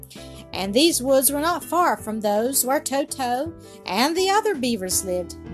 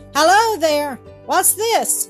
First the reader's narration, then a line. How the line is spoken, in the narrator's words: cried Bobby, who was very much surprised